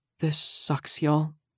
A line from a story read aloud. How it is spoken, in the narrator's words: Flana sighed